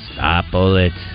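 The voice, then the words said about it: Imitates E.T.'s voice. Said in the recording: “That's your best imitation you've ever done. ... E.T.”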